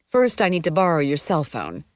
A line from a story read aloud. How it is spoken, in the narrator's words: I said